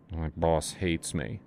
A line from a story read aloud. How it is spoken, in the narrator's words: Asa mumbled